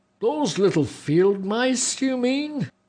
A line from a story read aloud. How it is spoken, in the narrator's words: the other giant said, and roared with laughter